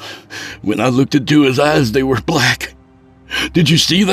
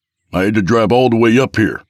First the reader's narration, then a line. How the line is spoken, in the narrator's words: Rich barked